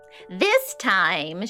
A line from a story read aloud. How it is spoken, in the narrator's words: she screeched